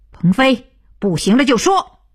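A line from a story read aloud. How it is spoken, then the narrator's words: Loud. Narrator (Chinese): 徐东福飞转着大声道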